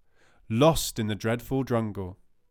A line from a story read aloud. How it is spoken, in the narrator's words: cried the poor Hindu